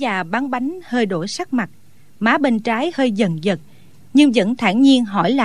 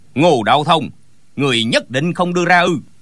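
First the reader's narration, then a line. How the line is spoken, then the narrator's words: Angry shout. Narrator (Vietnamese): Gã cao kiều giận dữ quát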